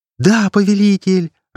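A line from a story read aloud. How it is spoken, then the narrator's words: Joyful exclamation. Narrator (Russian): радостно воскликнула Вирджи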